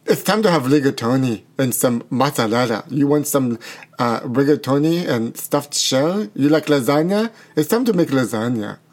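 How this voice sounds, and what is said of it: Put-on Italian accent, sounds Russian. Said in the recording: “Do you think this sounds Russian or Italian? ... No, it definitely sounds Russian ... Lady Gaga's accent, perfection ... your accent isn't Italian either ... You don't think that's Italian?”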